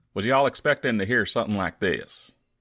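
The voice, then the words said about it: Put-on Texan accent. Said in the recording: “I'm from and I live in Texas ... Texan accent”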